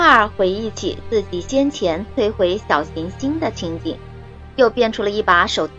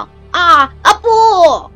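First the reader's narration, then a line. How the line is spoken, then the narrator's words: Loud roar. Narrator (Chinese): 阿特斯特斯大声咆哮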